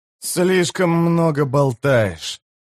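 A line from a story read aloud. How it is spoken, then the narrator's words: Grumbling. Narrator (Russian): проворчал Карса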